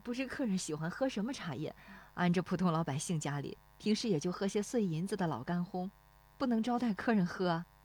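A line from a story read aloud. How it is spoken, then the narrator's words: Shy, low woman's voice. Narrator (Chinese): 那妇女笑得有些羞涩，低声说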